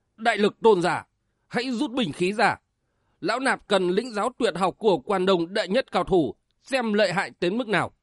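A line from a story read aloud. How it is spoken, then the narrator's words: Commanding shout. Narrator (Vietnamese): Bách Thiện đại sư quát lên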